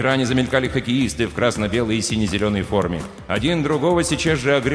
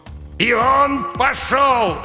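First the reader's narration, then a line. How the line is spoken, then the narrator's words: Commentator barking over crowd roar. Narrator (Russian): рявкнул хоккейный комментатор под вопли стадиона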